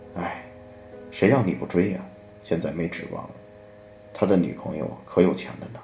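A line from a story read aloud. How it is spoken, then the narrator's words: Regretful sigh. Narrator (Chinese): 室友惋惜的叹气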